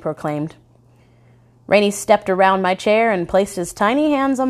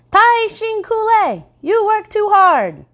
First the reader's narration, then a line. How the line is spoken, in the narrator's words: chirped